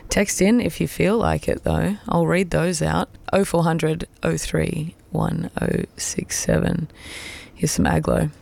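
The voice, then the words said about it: Slightly hoarse, fading voice. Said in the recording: “if you can tell, I'm lightly losing my voice.”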